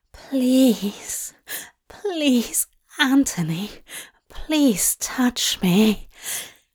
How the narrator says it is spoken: Aziraphale read, a desperate plea, his voice laden with arousal

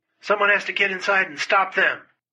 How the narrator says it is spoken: Chesty yelled

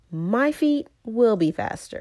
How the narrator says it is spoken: cried Tiger

